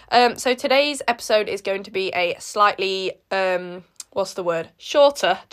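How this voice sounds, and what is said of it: Hoarse congested voice with a cold. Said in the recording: “sorry for my voice. It probably sounds like I'm dying of the plague ... I have a cold, so my voice is not the nicest thing to listen to ever”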